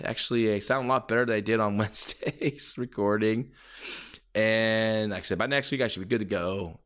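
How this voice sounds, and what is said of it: Raspy voice. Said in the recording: “my raspy voice, you know, being a bit under weather, though I'm on the mend”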